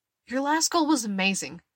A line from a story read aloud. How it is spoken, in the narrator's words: Chowder blurts